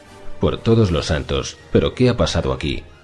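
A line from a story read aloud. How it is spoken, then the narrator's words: Murmured, older policeman. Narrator (Spanish): murmuró el mayor de los dos policías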